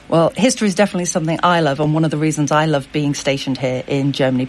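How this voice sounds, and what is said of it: British accent. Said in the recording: “you can probably tell from the accent I'm British”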